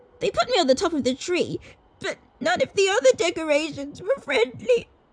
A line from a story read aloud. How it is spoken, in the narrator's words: she sobbed